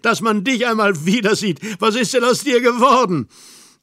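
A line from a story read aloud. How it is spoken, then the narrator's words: Annoyed boyish laugh. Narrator (German): Ärgerlich lachte er auf, ganz wie in der Knabenzeit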